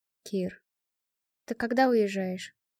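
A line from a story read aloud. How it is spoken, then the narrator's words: Calling with a sigh. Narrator (Russian): Вздохнув, позвал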